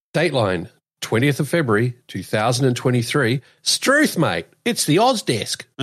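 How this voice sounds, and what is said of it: Australian accent. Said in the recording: “you sound very Australian when you say stuff like that ... I've had the Kiwi accent beaten out of me”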